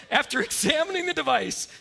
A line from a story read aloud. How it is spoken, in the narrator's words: she called out